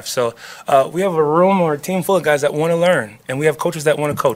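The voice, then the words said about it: Upstate New York accent. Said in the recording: “I can hear the Rochester, New York accent”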